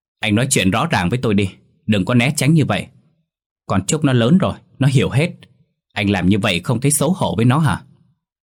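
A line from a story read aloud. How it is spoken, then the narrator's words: Loud heated arguing. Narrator (Vietnamese): Hai người càng ngày càng cãi nhau to tiếng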